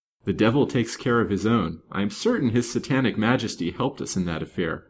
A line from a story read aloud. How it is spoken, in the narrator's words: the laughing reply